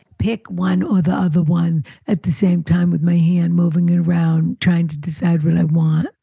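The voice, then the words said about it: Dry, boring dictionary-definition voice. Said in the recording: “I'm doing an impression of the boring explanation of what the word rummage means.”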